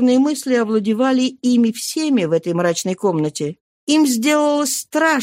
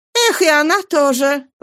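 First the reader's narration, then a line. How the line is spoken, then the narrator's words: Exclaiming. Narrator (Russian): воскликнула Каролина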